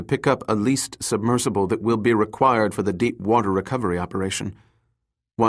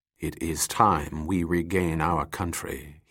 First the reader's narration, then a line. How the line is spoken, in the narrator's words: he muttered softly